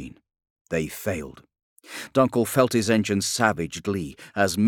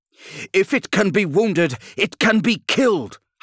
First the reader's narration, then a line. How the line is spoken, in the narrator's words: howled Dunkel